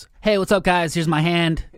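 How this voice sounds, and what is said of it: Mock influencer selfie-video voice. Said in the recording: “I'm imitating an influencer”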